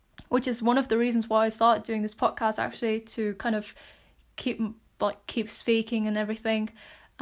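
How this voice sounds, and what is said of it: British accent. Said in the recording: “I'm kind of trying to just now keep my British accent ... why I have that British accent”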